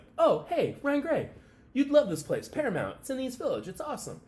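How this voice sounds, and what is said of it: Upbeat imitation of another person's voice. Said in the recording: “That's a good Kurt Flood impersonation. ... because it was more upbeat”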